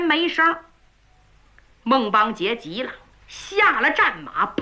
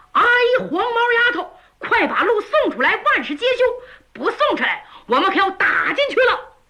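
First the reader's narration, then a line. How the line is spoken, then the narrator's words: Shouting loudly. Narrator (Chinese): 扯着嗓子冲着里边喊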